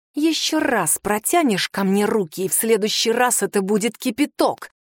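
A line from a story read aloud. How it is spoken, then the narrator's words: Hissing. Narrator (Russian): прошипела я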